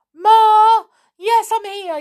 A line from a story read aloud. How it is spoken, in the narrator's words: yelled Edgar